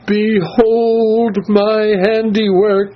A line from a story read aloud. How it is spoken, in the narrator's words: she cried